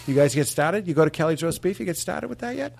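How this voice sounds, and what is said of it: High-pitched put-on Boston accent. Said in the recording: “it's high. It's higher than you think ... let's practice our Boston accent ... our touchstone for Wahlberg ... Relax the jaw ... Bostonians don't try”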